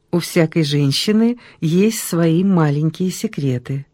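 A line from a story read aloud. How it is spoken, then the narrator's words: Plain. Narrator (Russian): сказала Ольга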